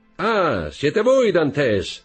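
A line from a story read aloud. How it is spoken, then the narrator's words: Man shouting from boat. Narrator (Italian): gridò l'uomo dalla barca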